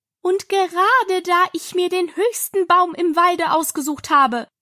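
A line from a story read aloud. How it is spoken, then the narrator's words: Raised voice. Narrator (German): fuhr die Taube mit erhobener Stimme fort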